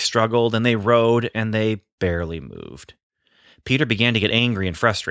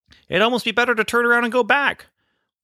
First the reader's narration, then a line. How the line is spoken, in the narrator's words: one of the disciples shouted